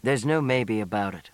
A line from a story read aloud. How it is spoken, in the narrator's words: he said roughly